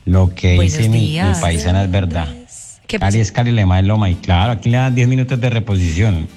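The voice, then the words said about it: Pleasant regional Spanish accent. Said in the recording (Spanish): “ese acento tan lindo”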